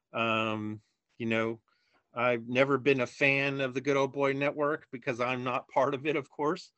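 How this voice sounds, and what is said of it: Slightly nasal Chicago accent. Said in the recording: “I've got a little bit of a nasally Chicago accent”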